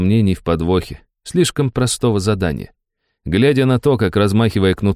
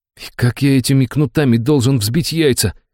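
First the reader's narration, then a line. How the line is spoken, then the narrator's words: Exhaled. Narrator (Russian): выдохнул Антоха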